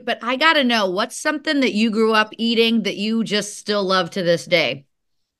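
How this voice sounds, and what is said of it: Slight Chicago accent. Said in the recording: “I'm originally from Chicago. You can probably hear it in my accent a little bit”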